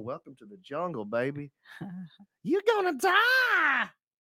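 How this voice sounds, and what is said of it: Imitates another person's voice. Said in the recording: “Axl Rose impressions”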